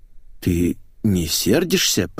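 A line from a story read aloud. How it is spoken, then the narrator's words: Mumbled. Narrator (Russian): промямлил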